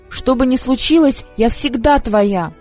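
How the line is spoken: Shout. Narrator (Russian): прокричала она

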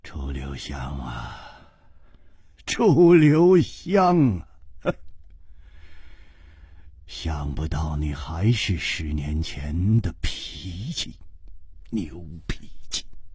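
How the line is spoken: Sighing murmur. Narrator (Chinese): 姬冰燕叹了一口气，喃喃地说

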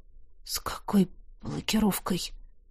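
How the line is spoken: Barely audible question. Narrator (Russian): Едва слышно спросила я

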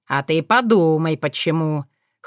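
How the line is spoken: Smirking. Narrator (Russian): хмыкнул Кирант

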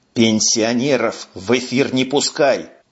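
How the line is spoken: Hissing. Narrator (Russian): зашипел Бобров

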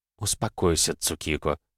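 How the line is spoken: Quietly. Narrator (Russian): тихо произнесла Канон

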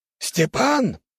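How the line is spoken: Shouted. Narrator (Russian): выкрикнул тот

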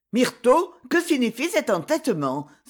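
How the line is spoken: Displeased exclamation. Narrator (French): s'écria d'un ton mécontent

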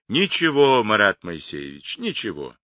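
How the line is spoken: Cheerful. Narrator (Russian): весело отвечал Павлик

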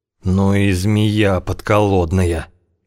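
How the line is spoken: Groaning. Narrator (Russian): простонал Венедим

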